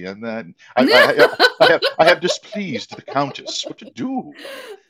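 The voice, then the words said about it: Bad Billy Zane impression. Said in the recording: “a very, very bad Billy Zane impression.”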